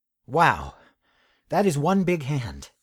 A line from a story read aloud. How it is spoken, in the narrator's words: Moss exclaimed